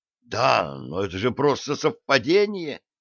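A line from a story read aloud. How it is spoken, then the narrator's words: Elderly man exclaiming. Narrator (Russian): воскликнул пожилой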